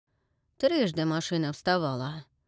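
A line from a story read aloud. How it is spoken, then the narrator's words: Grumbled. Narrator (Russian): проворчал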